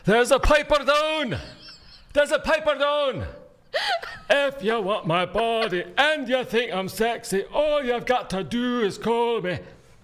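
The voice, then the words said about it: Put-on Scottish accent. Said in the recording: “my Scottish accent”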